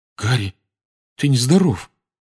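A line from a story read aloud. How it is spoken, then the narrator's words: Trembling voice. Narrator (Russian): проговорил он дрожащим голосом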